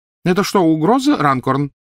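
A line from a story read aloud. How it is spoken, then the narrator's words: Loud inquiry. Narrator (Russian): громко осведомился мистер Уизли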